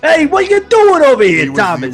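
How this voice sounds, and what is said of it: New York Brooklyn Italian-American accent. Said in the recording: “Goomba ... Italian bulldog ... He was very, like, New York, Brooklyn accent”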